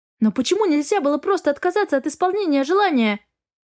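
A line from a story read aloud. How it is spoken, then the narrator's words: Exclaimed. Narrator (Russian): воскликнула я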